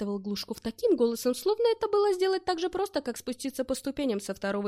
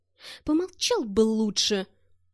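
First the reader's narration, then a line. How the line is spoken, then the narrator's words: Strained, forced out. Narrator (Russian): Выдавил я из себя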